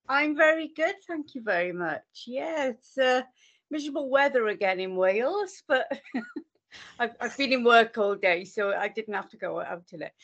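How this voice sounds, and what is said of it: Welsh accent. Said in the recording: “your accent did sound Welsh”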